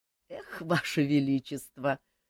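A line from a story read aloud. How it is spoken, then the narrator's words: Laughing. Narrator (Russian): засмеялся Жак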